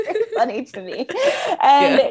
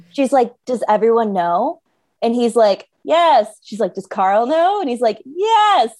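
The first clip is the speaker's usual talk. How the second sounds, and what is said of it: Offhand, dismissive imitated voice. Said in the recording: “he like does it in such a toss away kind of way ... That was a great impression. It was very good.”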